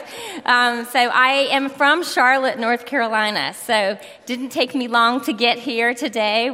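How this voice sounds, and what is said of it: Southern US accent. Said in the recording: “I don't have to worry about my southern accent”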